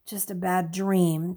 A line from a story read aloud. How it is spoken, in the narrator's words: Stephen muttered